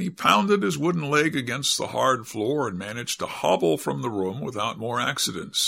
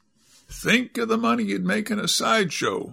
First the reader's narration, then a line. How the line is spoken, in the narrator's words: said Cap'n Joe with his funny chuckling laugh